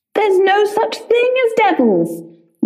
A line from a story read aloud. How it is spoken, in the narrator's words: yelled the poet